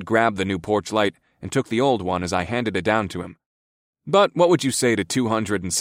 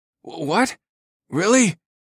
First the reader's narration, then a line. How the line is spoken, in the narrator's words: David sputtered